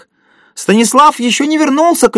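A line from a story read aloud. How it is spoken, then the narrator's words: Shouted. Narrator (Russian): крикнул кто-то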